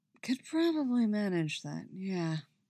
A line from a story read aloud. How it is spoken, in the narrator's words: he murmurs